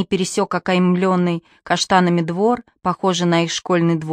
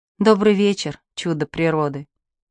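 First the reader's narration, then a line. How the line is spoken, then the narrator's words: Soft. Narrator (Russian): сказала мягко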